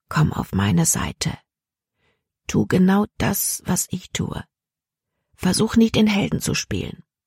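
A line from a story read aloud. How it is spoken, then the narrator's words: Speaking softly. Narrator (German): sagte leise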